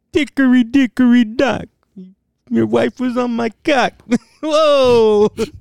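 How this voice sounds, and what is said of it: Imitates another person's voice. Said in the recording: “my fucking Andrew Dice impression”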